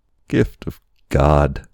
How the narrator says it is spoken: he cried

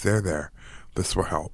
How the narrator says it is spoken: a woman say in a quiet voice

